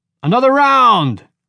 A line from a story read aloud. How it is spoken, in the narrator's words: shouted Bo Dai from the bar stool